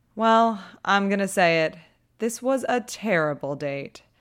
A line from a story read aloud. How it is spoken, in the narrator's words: Patty sighs